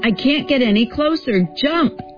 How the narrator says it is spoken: he shouts as the boat gurgles and sinks now in the trough

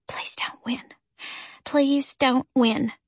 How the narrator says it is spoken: I whispered to myself

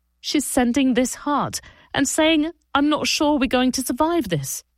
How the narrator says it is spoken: Ido sobbed

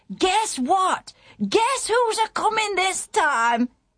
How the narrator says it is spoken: the man on the watchtower called out

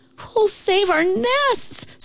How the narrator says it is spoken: screeched the birds

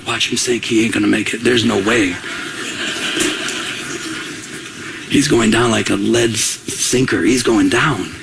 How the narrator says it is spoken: whispering

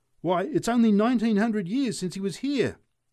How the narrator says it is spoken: shouted the drunk in answer to a declaration from the preacher

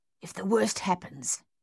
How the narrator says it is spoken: Thaddeus hissed at Dave

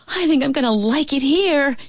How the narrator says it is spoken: she yelled to Louise

